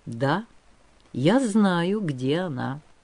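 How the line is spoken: Calm. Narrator (Russian): спокойно сказал

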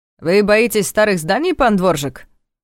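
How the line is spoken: Mocking question. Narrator (Russian): насмешливо поинтересовался Даниэль

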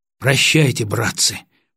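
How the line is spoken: Whisper. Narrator (Russian): прошептал Гаврилов

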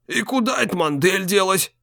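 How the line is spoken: Old man grumbling. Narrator (Russian): забурчал старик

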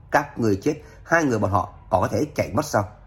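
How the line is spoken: Harsh stern voice. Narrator (Vietnamese): Tôn quản gia gằn giọng nói

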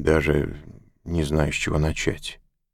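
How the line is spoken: Mumbling. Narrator (Russian): промямлил он

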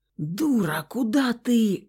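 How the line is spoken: Cut off by hoarse cough. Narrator (Russian): хриплый кашель оборвал слова

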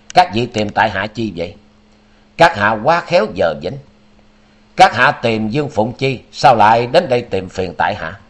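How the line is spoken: Triumphant laugh, cold. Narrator (Vietnamese): lòng báo phục thắng lợi bất giác khiến cho chàng buông tiếng cười đắc ý, đưa mắt nhìn Thái Bạch Kim Tinh rồi lạnh lùng nói

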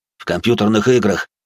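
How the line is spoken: Snorting while walking. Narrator (Russian): хмыкнул на ходу капитан

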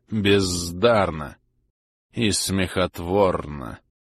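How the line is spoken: Low predatory husky synthetic voice. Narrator (Russian): Голос Янга, низкий, хищный, с завораживающей хрипотцой, был таким же синтетическим

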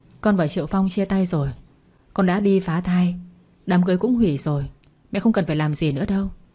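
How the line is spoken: Cold. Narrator (Vietnamese): Quỳnh vẫn lạnh lùng nói

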